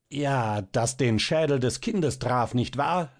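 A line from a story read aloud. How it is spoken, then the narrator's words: Sudden excited shout. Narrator (German): rief da der Famulus plötzlich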